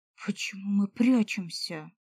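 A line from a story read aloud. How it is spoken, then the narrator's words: Whispered. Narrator (Russian): прошептал Зуртас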